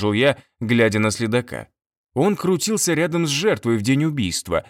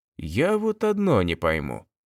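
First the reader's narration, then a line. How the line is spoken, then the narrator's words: Said quietly. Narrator (Russian): тихо сказал Кобылкин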